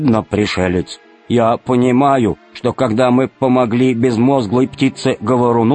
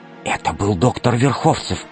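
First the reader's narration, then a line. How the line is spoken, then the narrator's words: Whisper. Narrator (Russian): прошептала Алиса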